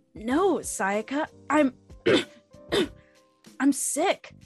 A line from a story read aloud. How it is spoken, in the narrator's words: he groaned